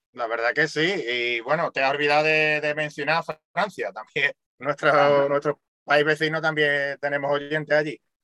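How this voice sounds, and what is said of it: Madrid Spanish accent. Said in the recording (Spanish): “yo con acento madrileño”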